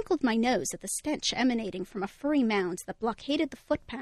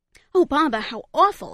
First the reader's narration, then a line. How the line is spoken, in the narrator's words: exclaimed Mom